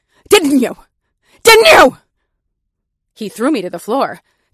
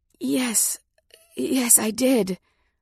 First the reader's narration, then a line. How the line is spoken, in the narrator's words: I gasped